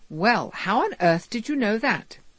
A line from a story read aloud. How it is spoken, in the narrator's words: The lady burst out laughing and replied